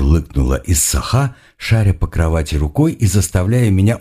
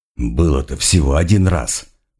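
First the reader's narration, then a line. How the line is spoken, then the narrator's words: Grumbled. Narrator (Russian): буркнул я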